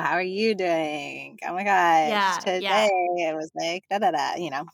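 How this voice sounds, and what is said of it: Long, drawn-out Valley Girl accent. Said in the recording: “I definitely talk to my husband in a Valley Girl accent. Like I'm like, a true Valley Girl accent is like long and drawn.”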